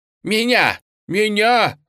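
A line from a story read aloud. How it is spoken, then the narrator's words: Wailing. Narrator (Russian): завопил Леня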